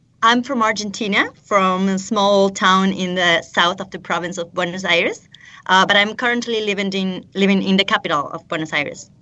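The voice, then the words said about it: Speaks with an accent. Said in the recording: “Now you have an accent... But you've got an accent.”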